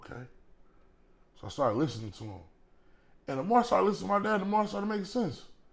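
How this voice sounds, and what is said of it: Texas accent. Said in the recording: “The accent is hilarious. ... I'm from Texas, y'all.”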